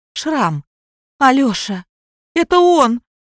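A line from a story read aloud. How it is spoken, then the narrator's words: Loud sobbing cry. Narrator (Russian): бедно одетая женщина, зарыдав в голос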